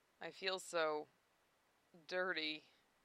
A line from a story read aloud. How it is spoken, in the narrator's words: he mumbled, so that only Lena could hear